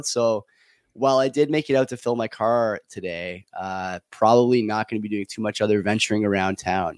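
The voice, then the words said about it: Strained, not fully recovered voice. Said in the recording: “my voice is still sort of in recovery mode”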